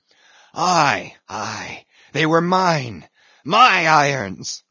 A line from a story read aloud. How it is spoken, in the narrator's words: cried Ahab exultingly